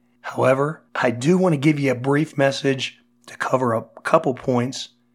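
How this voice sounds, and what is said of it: Voice sounds unwell, not improving. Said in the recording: “as you can hear, my voice isn't improving any”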